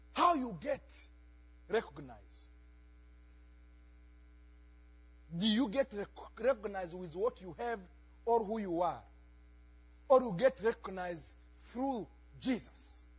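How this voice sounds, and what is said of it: Non-native English accent. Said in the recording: “you can know that my English is broken because I have a, an accent”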